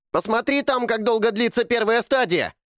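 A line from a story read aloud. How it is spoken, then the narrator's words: Shout. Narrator (Russian): крикнул Эрни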